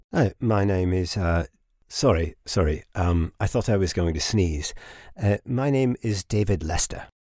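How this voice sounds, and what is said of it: Educated-sounding put-on accent. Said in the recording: “Listen to her accent. What I wouldn't give to sound so educated.”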